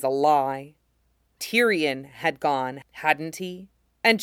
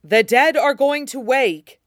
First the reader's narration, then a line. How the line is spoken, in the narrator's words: at the top of his lungs